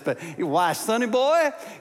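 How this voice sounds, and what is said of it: Exaggerated Southern American accent. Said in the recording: “he had a big Southern accent. So if you're from the Northeast, sorry about this.”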